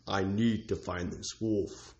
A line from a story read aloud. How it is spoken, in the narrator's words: growled Onyx